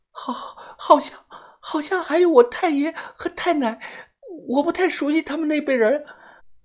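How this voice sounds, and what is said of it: Stammering, frightened, incoherent speech. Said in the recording (Chinese): “浑身哆嗦，牙齿不停的打颤 ... 语无伦次的说”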